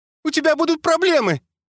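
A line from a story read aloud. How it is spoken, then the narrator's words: Angry squeal. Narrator (Russian): злобно взвизгнул Мопсик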